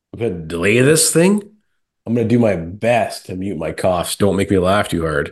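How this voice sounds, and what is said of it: Sick-sounding voice. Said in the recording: “I've been sick. You could probably hear it in my voice.”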